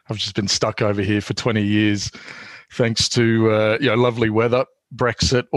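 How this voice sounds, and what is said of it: Non-English accent. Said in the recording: “As hopefully your listeners can tell by my accent, I'm not actually English.”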